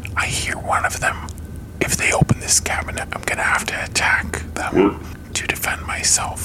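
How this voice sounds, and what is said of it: Whispering. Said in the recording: “I hear a whispering coming from this cupboard.”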